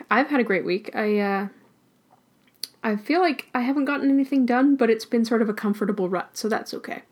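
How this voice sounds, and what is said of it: Hoarse voice cutting in and out. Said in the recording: “I do keep losing my voice though, so it's going to be in and out today”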